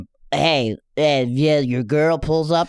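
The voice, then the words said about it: Imitates another person's voice. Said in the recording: “This is my impression of him.”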